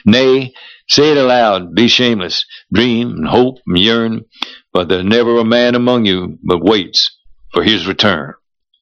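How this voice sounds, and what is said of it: Choked up, crying voice. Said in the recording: “Oh, you cry! You're crying. ... You get all choked up about Man of War.”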